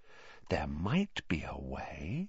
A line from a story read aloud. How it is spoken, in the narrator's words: said Hermione slowly, dropping her voice still further